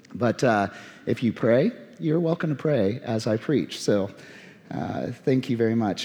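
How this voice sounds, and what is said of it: Weakened voice recovering from illness. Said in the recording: “I sound a little different ... you never know how a voice is going to recover when you've been fighting something over several days ... I'm sorry for the quality of my voice”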